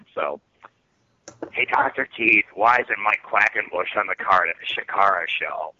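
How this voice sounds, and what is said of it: Raspy smoker's voice impression. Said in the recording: “going to do a Sox impersonation ... this is what this guy Sox sounds like ... he literally sounds like he has, you know, has smoked most of his adult life”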